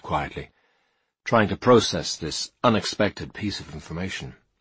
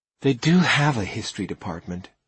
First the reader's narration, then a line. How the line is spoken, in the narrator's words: she said with a sigh, as if she was trying to explain the theory of relativity to an imbecile